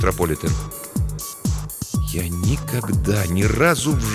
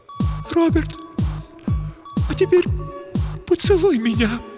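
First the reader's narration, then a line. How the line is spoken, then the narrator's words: Near tears. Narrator (Russian): произнесла Елена, едва не рыдая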